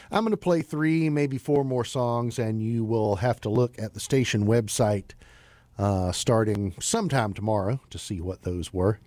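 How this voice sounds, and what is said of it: Strained, failing voice. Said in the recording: “you can probably tell my voice is about to leave me”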